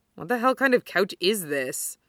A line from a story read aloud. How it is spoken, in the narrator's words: Kenma mutters